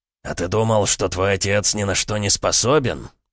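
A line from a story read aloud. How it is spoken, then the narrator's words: Hissing. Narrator (Russian): прошипел силуэт сбоку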